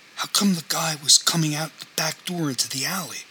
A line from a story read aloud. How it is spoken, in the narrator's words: said